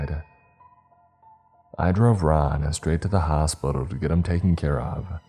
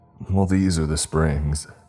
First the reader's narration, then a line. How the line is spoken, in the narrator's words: he said